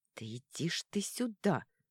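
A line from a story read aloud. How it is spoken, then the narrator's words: Hissing. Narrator (Russian): прошипела она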